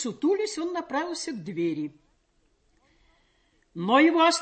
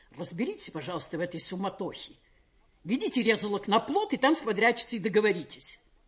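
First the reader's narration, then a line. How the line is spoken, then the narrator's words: Angry, pained command. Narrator (Russian): Он болезненно поморщился, приказал сердито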